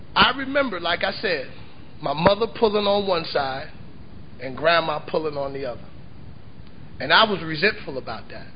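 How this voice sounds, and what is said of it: Southern American accent. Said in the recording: “that southern accent won't allow me to tongue it off”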